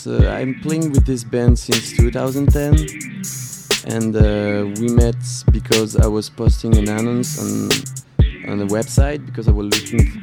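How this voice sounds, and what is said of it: French accent. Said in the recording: “If they couldn't tell by the accent... You're not from Texas, bro.”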